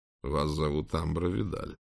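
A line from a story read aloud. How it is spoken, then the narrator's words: Calm prince. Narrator (Russian): спокойно произнес принц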